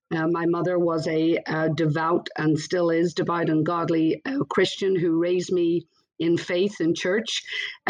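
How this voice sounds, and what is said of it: Northern Irish accent. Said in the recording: “I always love when I hear a little accent ... you pick up on my accent ... It has not gone away. But I was born originally in Belfast, Northern Ireland.”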